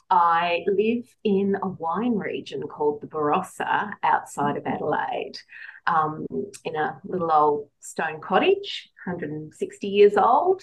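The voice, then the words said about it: Australian accent. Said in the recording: “I have a slightly different accent... I'm an Australian”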